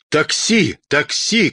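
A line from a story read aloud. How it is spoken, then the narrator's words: Frantic shouting father. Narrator (Russian): как сумасшедший закричал папа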